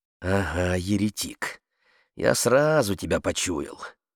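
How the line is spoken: Grumbling mutter. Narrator (Russian): пробурчал хозяин

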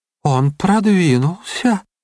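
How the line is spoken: Sighing. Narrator (Russian): вздохнула штопольная игла

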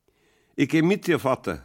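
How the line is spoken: Calling out. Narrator (German): rief der Lenz

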